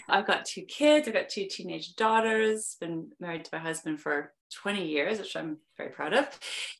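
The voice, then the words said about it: Mixed Canadian and British accent. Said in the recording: “I am originally from Vancouver, Canada, but I've been living in London, England for over 20 years, which is why I have a weird accent”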